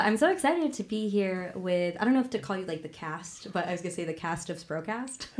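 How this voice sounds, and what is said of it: Sick-sounding voice. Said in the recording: “excuse my voice, I am still recovering from a cold”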